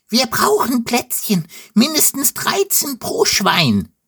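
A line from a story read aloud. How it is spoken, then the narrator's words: Squealing. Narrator (German): quiekt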